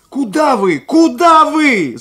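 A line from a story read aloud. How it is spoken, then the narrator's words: Several voices shouting. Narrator (Russian): закричали мы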